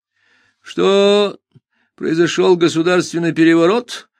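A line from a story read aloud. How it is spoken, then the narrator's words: Dejected question. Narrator (Russian): упавшим голосом спросил я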